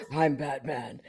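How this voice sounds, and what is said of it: Batman character voice. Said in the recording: “in his Batman voice... My iconic Batman voice”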